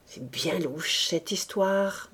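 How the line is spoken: Murmur. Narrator (French): murmura-t-elle

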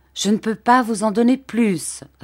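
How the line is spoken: Plain. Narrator (French): répondit ma tante

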